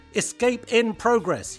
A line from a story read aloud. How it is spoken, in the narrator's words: yelled